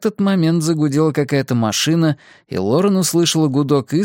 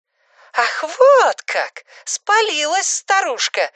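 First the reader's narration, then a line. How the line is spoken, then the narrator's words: Shouting. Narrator (Russian): закричала она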